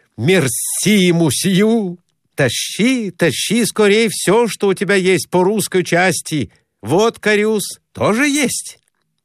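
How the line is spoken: Joyful address. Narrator (Russian): Радостно обратился сказав

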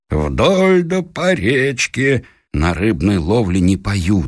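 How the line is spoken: Plain. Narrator (Russian): сказал я

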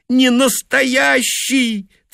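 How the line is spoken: Insistent, through tears. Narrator (Russian): твердила она сквозь слезы

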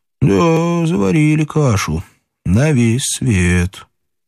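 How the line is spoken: Calm remark. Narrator (Russian): Кто-нибудь замечал спокойно

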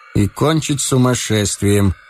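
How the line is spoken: Gloomy. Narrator (Russian): мрачно сказал Ромашов

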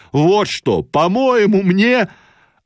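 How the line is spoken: Sudden shouting. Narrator (Russian): он вдруг вскакивал на постели и кричал

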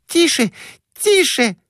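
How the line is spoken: Shrieking. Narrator (Russian): визжала Глафира Семеновна

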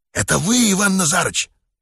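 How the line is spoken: Whispered question. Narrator (Russian): шепотом спросил Йеня

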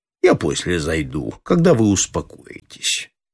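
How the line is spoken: Calm. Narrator (Russian): Предместкома спокойно сказал

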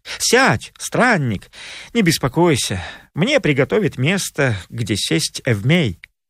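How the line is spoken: Gentle. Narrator (Russian): Ласково обратился к нему Телемах и сказал

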